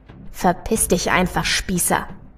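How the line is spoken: Growled. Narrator (German): knurre daher bloß

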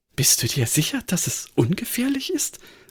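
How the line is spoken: Murmured. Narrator (German): murmelte sie

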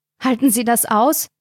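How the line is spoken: Panting. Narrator (German): keuchte Carina

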